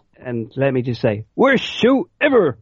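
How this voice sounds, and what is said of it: Comic Book Guy cartoon voice impression. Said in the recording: “He's basically doing Comic Book Guy. ... terrible impression”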